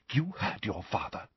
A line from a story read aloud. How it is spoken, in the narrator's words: whispered Mrs